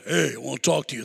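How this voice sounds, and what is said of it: Deep voice. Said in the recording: “the guy has a voice, deep voice.”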